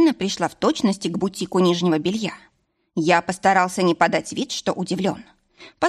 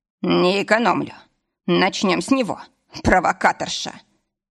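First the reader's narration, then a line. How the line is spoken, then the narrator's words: Snorting chuckle. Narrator (Russian): хмыкнул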